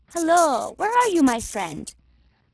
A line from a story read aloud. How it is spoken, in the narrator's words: cried the hunter